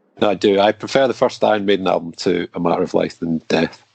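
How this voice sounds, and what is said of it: Non-American accent. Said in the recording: “my American ears hearing your accent”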